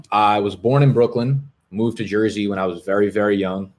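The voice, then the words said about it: Loud New York/New Jersey accent. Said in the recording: “fucking screaming and cursing ... my accent.”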